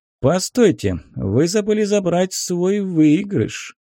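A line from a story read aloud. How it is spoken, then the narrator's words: Gentle drawl. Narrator (Russian): ласково протянул крупье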